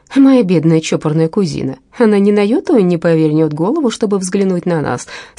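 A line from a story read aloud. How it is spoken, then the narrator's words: Plain, young man. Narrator (Russian): сказал молодой человек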